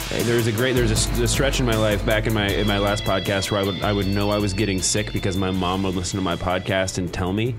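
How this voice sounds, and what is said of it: Congested voice from a cold. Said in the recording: “I have a cold, so apologies for my weird voice.”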